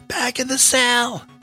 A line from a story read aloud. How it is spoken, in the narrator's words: yelled Bunce